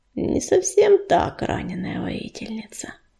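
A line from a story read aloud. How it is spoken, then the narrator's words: Unexpectedly gentle female reply. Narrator (Russian): неожиданно ласково ответила барсучиха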